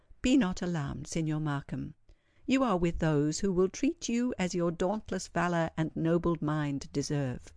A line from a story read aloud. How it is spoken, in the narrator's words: the lady said, in a soft tone, and in the Italian language